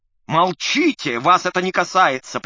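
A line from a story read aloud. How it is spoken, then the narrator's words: Sharp shout. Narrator (Russian): прикрикнул на него Ипполит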